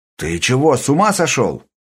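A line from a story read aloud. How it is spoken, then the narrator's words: Exclaimed. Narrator (Russian): воскликнул один из политруков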